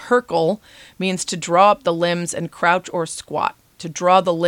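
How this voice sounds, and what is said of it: Usual voice. Nothing is said of it.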